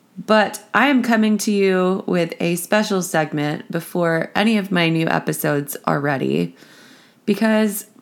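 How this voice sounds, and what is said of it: Raspy voice. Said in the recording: “I am currently recovering from what is probably COVID. So I apologize for the amazingly sexy, raspy voice that I've got this week.”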